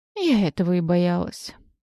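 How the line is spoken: Sighing. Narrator (Russian): вздохнула я

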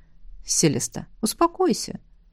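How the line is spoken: Calm request. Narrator (Russian): Неожиданно спокойно попросил меня Льерт

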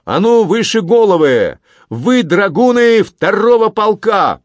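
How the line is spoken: Loud shout. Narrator (Russian): громко крикнул

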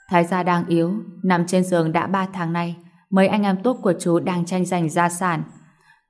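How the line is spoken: Sighing. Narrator (Vietnamese): Lâm Bắc Cường thở dài nói

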